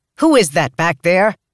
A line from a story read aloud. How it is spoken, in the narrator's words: Vinette yelled out